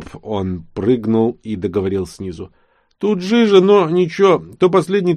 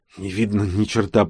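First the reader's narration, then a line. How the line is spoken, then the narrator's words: Hoarse rasp. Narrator (Russian): прохрипела Влада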